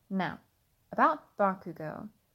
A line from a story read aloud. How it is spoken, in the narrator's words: her mother said solemnly